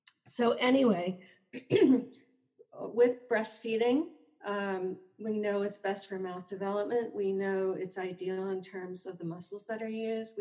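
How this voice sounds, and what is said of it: Slightly hoarse voice. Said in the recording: “my voice is a little hoarse. There's allergies. It's not the flu.”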